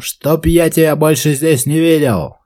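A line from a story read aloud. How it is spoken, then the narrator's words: Shout. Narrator (Russian): хозяин, который ему кричал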